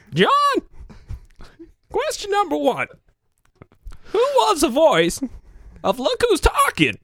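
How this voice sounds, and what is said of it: Imitates another person's voice. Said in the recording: “my impression of Don Knotts talking to John DeCoven”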